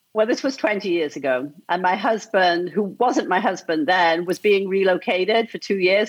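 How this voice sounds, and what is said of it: Texas accent. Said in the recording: “You totally have a Texas accent”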